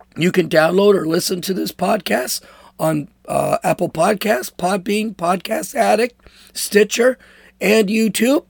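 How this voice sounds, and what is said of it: Rough, damaged-sounding voice. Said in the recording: “my voice is all jacked up. I'm sure it'll get better.”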